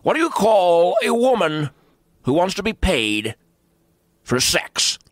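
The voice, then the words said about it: Rush Limbaugh impression, Australian-sounding. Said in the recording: “You got to get rid of the Australian accent ... I'm not saying I do Rush. I wouldn't claim to be a Russian impersonator.”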